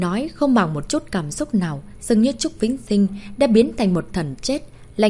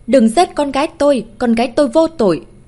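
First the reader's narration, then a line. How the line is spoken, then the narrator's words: Frantic desperate scream. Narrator (Vietnamese): Hoàng Quý Lan đã chợt điên cuồng gào lên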